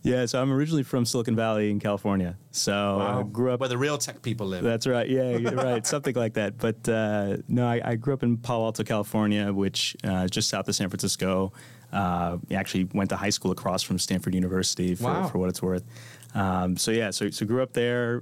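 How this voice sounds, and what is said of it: American accent, Californian. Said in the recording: “a regional accent from outside of the UK”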